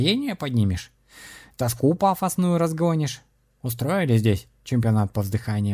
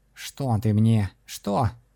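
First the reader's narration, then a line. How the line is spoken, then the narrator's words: Suddenly irritated voice. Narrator (Russian): неожиданно раздраженным голосом уточнил кот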